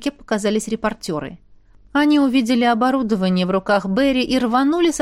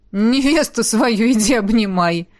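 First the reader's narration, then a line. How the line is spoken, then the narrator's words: Snorting with laughter. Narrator (Russian): фыркнул, смеясь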